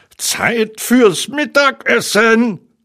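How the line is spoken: Called out. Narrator (German): rief Tigger

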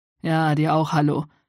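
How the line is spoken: Growling with suppressed grin. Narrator (German): knurrte Balthasar, konnte sich aber ein Grinsen nicht verkneifen

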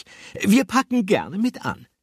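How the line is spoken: Answering. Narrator (German): antwortete die Stimme von Frau Fröhlich

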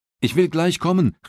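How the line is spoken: Woman calling out. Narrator (German): rief des Kapitäns Frau

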